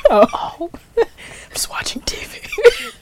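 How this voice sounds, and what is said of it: Whispering. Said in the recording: “That's why I'm whispering.”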